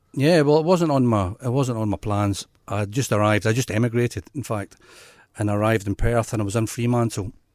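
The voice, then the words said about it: Faint Scottish accent, Australian-tinged. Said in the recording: “People may slightly pick up on a bit of an accent ... I have got a bit of an accent. I don't know if you can still hear it. It's Scottish ... What's with the Australian accent?”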